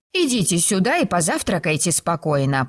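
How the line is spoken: Grumbling. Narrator (Russian): проворчала она

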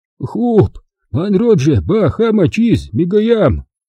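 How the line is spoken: Hoarse spirit rasp. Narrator (Russian): прохрипел дух

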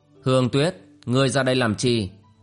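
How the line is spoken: Cold question. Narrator (Vietnamese): Bác Thiên Tôn giả lạnh lùng hỏi

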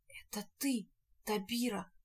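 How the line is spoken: Barely able to whisper. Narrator (Russian): Шарль едва в силах прошептать ему в ответ

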